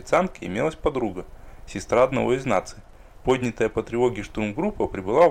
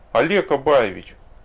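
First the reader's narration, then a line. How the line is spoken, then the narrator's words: Sad moan. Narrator (Russian): печально простонала Ольга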